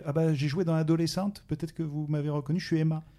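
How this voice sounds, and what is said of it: Slight southern French accent. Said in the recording (French): “avec un petit accent du sud”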